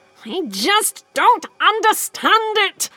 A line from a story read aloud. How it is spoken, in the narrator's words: the doctor wailed